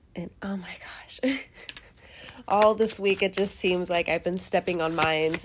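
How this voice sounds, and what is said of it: Congested voice from head cold. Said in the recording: “I also have a little bit of a head cold ... It's literally just congestion and just, you know, coughing here and there ... my apologies if my voice sounds a little different right now”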